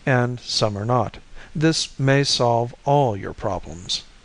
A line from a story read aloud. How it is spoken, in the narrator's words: nodded solemnly